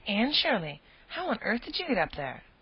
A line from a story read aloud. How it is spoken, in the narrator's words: he exclaimed